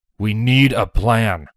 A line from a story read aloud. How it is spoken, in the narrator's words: Broadsword said